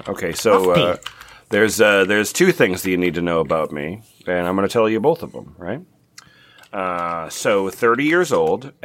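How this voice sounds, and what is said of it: Maine accent. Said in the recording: “Oh, is this your Mainer accent? Is this your Mainer accent? ... This is my Mainer accent.”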